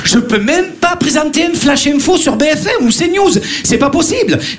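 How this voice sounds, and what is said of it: Marseille French accent. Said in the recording (French): “on entend mon accent à chaque fois... Marseillais”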